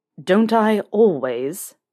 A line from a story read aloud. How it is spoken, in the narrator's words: Snape snarled